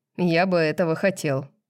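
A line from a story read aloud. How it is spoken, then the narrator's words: Joyless laugh. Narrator (Russian): невесело рассмеялся Тарион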